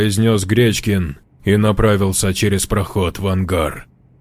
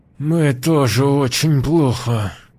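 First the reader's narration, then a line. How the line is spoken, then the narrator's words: Strained, through gritted teeth. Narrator (Russian): ответил сквозь зубы, распластанный на полу Васечкин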